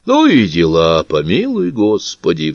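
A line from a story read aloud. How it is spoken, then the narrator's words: King's sigh. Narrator (Russian): вздохнул король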